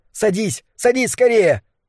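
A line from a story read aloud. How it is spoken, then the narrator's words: Shouting. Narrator (Russian): Кэл закричал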